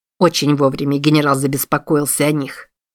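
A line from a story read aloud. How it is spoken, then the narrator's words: Grumbling. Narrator (Russian): проворчал Чарльз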